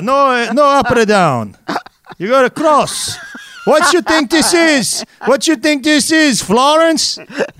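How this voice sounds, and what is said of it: Put-on accent. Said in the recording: “I'm laughing so hard at your accent”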